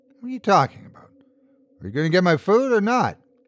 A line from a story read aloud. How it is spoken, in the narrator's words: He laughed at me